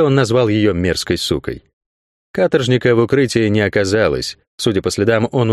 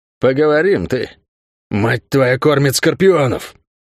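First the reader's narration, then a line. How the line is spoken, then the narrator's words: Hissed curse. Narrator (Russian): Прошипел он дагеварское проклятие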